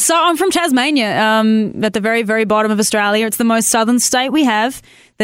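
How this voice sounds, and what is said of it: Australian accent. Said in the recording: “our audience can already hear your accent”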